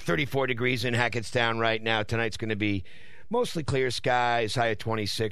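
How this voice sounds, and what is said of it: Slightly sore, rough throat. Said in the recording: “I've got a little bit of a sore throat.”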